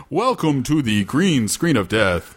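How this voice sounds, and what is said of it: Radio voice like Count Chocula. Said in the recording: “You sound like Count Chocula... I'll work on my radio voice... your radio voice sucks”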